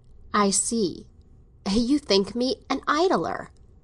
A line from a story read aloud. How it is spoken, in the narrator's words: Morris exclaimed, a little too much in the tone of a man who has made a discovery